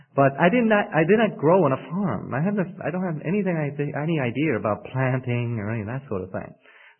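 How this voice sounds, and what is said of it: New York City accent. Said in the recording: “I'm from New York City. Perhaps some of you have probably already detected that by my accent. I do try to say my R's. I know we usually say New York, water”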